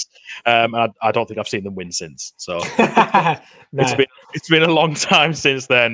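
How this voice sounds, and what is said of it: Newcastle, northeast England accent. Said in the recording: “I'm a big Newcastle fan, as you can probably tell from my accent. That's where I'm sort of from, up in the northeast.”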